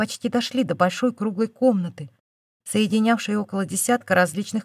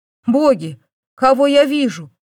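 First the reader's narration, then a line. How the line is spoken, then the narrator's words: Exclaiming. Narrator (Russian): воскликнул Эддин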